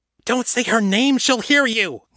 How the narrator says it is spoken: Nate exclaimed

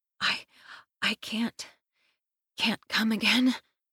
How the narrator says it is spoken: I moan breathlessly

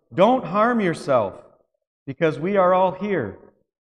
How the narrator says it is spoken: Paul shouted with a loud voice

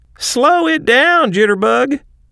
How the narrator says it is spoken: jibed Boner, laughing

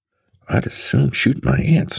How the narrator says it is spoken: muttered Terry again

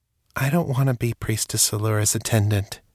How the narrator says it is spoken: she said softly

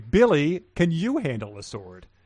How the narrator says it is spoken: Sharquil asks sarcastically

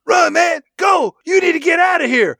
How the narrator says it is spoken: Michael Rooker screams out

